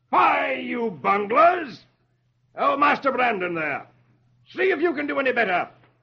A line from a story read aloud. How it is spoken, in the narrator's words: The king shouts